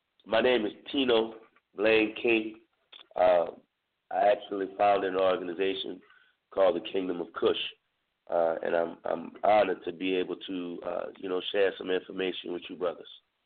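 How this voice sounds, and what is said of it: Hoarse, strained voice. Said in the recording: “Y'all have to excuse me. I'm losing my voice. I'm trying to get it back.”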